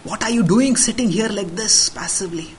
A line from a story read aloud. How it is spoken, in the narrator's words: Mantara hissed out to her